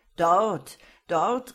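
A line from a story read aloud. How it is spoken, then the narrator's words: Called out. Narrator (German): rief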